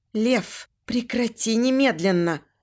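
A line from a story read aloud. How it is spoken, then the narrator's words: Trembling pleading voice. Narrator (Russian): Прошу дрожащим голосом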